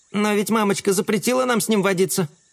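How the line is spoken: Ant's squeak. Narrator (Russian): пискнул муравей

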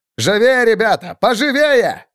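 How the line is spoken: Shouted. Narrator (Russian): крикнул он

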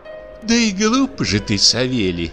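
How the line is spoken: Playful sigh. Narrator (Russian): вздохнула дичиха с шалостью

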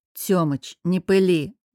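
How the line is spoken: Snorting. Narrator (Russian): фыркнул я

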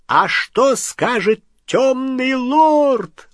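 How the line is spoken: Shrill squeal. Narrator (Russian): взвизгнул он

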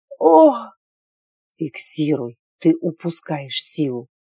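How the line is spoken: Gruff bark. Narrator (Russian): рявкнул Форсмут

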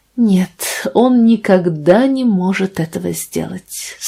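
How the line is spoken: Said with deep sigh. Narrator (Russian): сказала она, глубоко вздохнув

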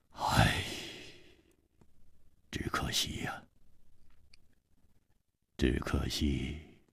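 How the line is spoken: Sudden sigh. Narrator (Chinese): 他忽然叹了一口气说

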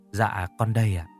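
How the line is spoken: Very soft. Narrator (Vietnamese): Người được hỏi đáp lại rất khẽ

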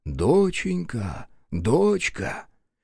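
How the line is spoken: Soft whisper. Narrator (Russian): Егерь тихонько шепча

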